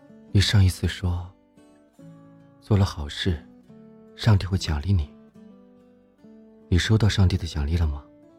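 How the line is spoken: Soft-spoken. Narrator (Chinese): 赵岩轻声说道

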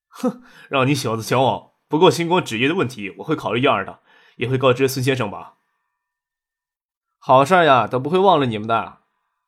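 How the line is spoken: Laughing. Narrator (Chinese): 叶剑兵笑着说

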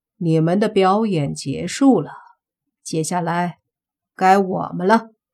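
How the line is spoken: Cold. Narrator (Chinese): 莫凡冷冷的 说道

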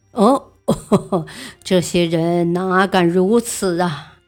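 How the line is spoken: Scornful laugh. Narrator (Chinese): 宪宗不屑地笑道

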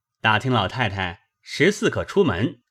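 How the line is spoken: Hurried, ingratiating smile. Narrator (Chinese): 贾琏忙进去陪笑道

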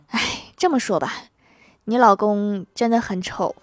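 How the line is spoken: Doctor sighing. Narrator (Chinese): 医生叹了口气说

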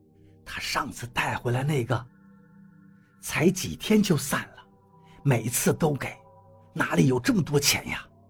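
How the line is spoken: Low voice. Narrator (Chinese): 老妈低声跟老头说

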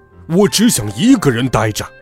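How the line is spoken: Frantic roar. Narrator (Chinese): 大熊发疯似的大吼

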